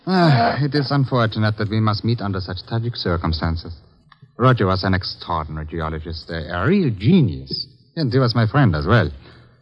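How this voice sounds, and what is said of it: Czech accent, sounds German. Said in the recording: “I see my accent has betrayed me again. But you see, I am not German ... No, I am a Czech”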